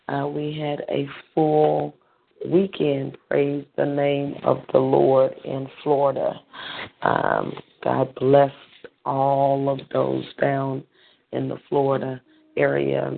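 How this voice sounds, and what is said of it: Slightly strained voice. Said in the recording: “my voice is a little strain this morning”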